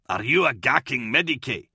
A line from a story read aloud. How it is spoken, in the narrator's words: Kalia snapped